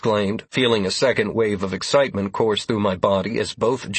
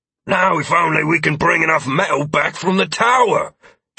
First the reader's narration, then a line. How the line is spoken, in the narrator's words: Jenkins said excitedly